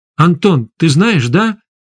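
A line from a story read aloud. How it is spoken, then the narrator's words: Shout. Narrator (Russian): крикнул Егор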